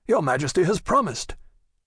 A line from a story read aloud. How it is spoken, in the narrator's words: exclaimed Athos